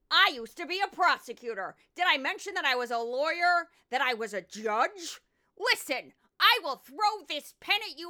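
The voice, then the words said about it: Impression of Judge Jeanine. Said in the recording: “I like to do accents on this show. People ask me to do my Judge Jeanine. I'll do my Judge Jeanine right now. It's going to take me a second to transfer out of this Arkansas accent.”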